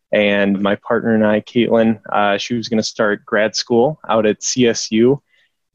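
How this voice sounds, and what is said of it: Minnesota American accent. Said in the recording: “I'm originally from Minnesota, if you can't tell in my accent”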